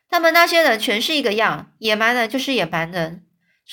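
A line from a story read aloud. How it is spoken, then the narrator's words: Loud yelling. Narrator (Chinese): 乔丽就开始又大声叫起来了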